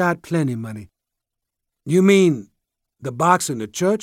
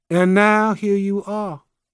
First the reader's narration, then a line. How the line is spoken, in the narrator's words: she said sadly